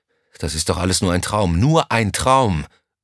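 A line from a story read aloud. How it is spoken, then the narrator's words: Inner roar. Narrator (German): brüllte es in ihm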